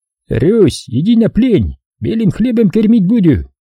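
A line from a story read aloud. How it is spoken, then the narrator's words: Shouting foreign soldiers. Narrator (Russian): немецких солдат, которые кричали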